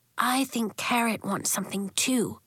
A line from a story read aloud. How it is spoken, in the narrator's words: Marigold whispered